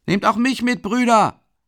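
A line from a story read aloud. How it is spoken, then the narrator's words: Young man shouting from crowd. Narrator (German): ruft ein Bursche aus der Menge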